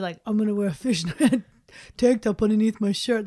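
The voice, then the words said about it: Jersey Shore guy accent impression. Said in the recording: “I don't know what that accent was. ... That was or my who situation that guy was. From Jersey Shore.”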